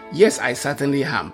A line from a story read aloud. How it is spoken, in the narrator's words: Paul replied